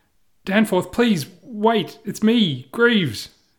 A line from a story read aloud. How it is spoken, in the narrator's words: I shout